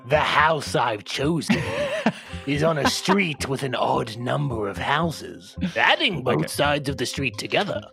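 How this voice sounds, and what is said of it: Creepy, sinister reading voice. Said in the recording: “if you could read that in an intelligibly creepy voice ... What's the opposite of ASMR?”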